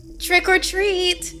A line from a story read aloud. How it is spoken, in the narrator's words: the grim gouger said in a high and enthusiastic voice